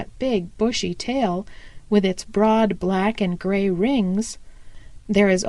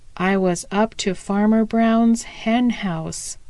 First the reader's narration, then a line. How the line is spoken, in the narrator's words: said he